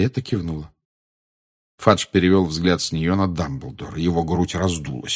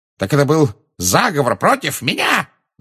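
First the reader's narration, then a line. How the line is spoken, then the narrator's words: Yell. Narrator (Russian): завопил он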